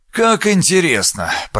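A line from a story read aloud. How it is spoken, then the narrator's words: Muttered. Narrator (Russian): пробормотал он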